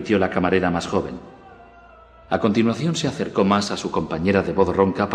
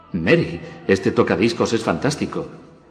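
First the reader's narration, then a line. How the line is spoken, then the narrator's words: Pleased exclamation. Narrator (Spanish): exclamó Clark en tono complacido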